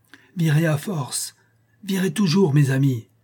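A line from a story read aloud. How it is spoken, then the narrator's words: Strained cry. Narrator (French): s'écrie-t-il en se relevant avec peine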